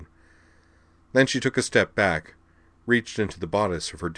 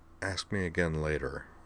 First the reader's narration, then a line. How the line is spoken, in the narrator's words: Corwin … finally said softly